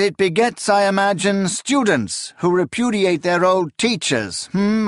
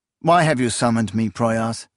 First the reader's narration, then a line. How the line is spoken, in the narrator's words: Akamian asked wearily